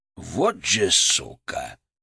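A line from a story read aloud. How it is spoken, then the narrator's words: Low, almost growling. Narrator (Russian): Голос Фырка был низким, почти рычащим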